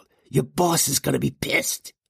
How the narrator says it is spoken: Junior growled

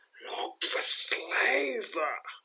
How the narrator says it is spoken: mutters Kurik under his breath as he ponders the latest turn of events

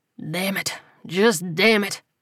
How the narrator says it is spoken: muttered

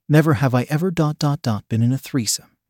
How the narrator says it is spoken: said Eric

